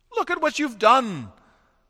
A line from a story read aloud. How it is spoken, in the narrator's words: cried the carpenter